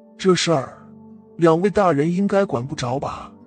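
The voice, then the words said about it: Mumbled, lisping old beggar's voice. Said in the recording (Chinese): “口音有些含糊不清……发现他是个豁牙子，嘴里没有门牙，一说话就漏风”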